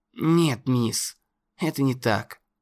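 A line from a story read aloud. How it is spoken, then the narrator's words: Choked mumble. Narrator (Russian): пробормотал, проглотив металлический сгусток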